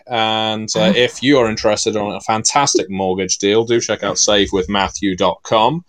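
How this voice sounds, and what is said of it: American accent. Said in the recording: “you can tell by your accent that you definitely live in the U.S.”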